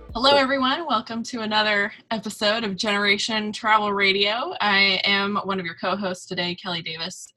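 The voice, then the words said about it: Groggy morning voice. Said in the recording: “I sound groggy. I am a little groggy”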